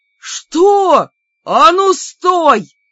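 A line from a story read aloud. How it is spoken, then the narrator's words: Two deceived brothers roaring. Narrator (Russian): взревели на два голоса обманутые братья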